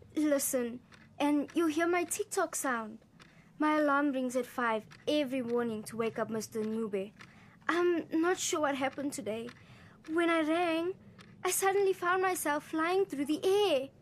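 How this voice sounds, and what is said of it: Trembly character voice. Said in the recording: “in a trembly voice”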